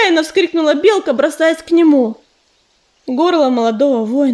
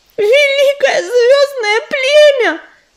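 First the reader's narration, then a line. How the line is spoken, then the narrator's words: Howling squirrel. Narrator (Russian): взвыла белка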